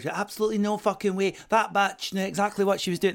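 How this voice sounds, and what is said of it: Put-on Glaswegian Scottish accent. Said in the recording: “the accent is on point ... I've been in Glasgow”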